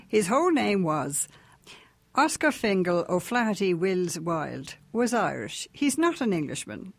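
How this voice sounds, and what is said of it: Irish accent. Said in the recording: “With your beautiful Irish accent.”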